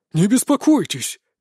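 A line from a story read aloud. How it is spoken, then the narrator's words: Oddly cheerful. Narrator (Russian): как-то радостно заявил гном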